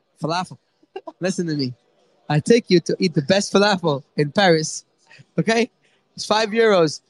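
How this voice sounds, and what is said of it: Put-on comedic accent. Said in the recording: “the same accent you did for Tell Me Falafel”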